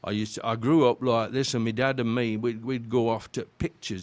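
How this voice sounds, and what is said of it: Yorkshire accent. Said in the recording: “I could go back to my Yorkshire accent, which I've always tried to get rid of”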